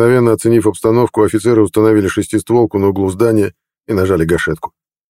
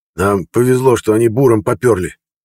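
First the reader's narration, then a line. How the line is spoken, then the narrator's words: Hoarse. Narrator (Russian): хрипло сказал Горыныч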